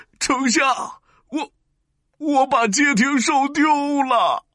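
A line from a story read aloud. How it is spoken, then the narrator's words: Crying. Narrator (Chinese): 哭着说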